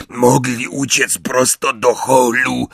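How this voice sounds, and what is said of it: Hoarse muttering character voice. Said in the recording (Polish): “mruknął ochrypły głos”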